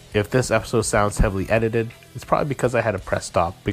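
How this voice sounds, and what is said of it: Hoarse, congested voice. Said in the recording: “having a cold, almost losing my voice, coughing. In fact, I still have a cold. I'm still coughing”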